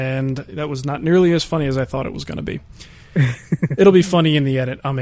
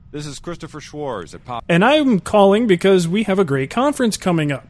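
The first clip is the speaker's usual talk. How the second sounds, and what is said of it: Imitates an automated robocall voice. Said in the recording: “my best impression of the, let's call it the Robo Schwarz phone call ... It was kind of funny getting a call, an automatic call from Chris”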